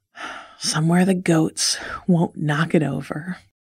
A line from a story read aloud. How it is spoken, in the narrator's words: said with a sigh